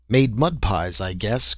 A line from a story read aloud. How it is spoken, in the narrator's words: grunted the captain